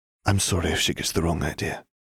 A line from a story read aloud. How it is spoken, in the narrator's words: Katie whispered